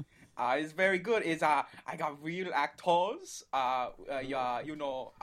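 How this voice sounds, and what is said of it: Put-on mixed foreign accent. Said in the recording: “Your accent's a little bit uh, um, ... multicultural there.”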